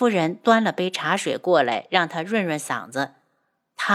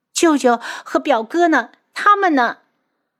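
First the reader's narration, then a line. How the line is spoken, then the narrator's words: Hurried question after crying. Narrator (Chinese): 等他哭够了，急忙问道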